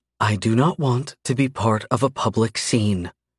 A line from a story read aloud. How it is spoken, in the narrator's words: she says sweetly